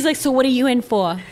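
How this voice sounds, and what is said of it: Put-on New York accent. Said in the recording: “She was from New York ... Accent.”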